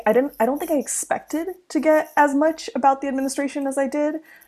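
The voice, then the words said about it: American accent. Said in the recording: “as soon as they hear my accent and they're like, you're from America”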